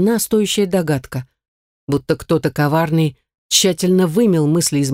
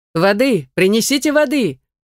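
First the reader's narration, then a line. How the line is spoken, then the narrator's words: Man shouting. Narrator (Russian): закричал мужчина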